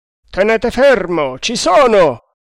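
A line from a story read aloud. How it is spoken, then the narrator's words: Booming yell. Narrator (Italian): urlò una voce tonante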